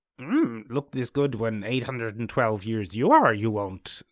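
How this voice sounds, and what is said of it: Yoda impression. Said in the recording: “Yoda was like ... That was a pretty spot on. Jim Henson is spinning in his grave. ... spun in his grave at that impersonation.”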